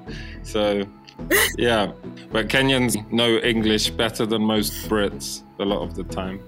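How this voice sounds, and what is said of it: Neutral British accent. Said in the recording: “my accent now is probably more of a neutral British than it was of a South London person before”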